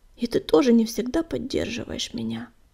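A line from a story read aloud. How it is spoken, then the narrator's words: Bitter whisper. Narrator (Russian): с горечью прошептал Огнегриф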